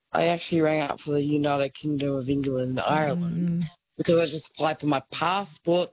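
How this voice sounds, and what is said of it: Australian accent. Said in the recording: “obviously, Aussie accent”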